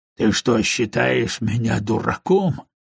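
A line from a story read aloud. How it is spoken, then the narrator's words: Gruff grumble. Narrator (Russian): буркнул Монг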